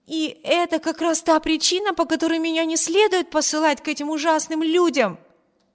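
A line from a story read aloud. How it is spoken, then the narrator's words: Exclaiming. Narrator (Russian): воскликнула Эми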